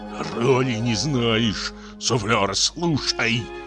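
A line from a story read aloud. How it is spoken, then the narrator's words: Hissed. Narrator (Russian): Прошипел трагик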